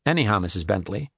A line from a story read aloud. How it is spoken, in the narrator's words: he said in his strong, confident voice